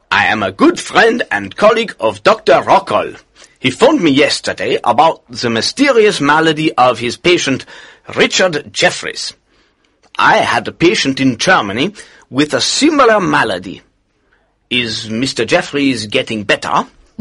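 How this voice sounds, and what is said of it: Loud voice with German accent. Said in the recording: “in a loud voice. He had a German accent.”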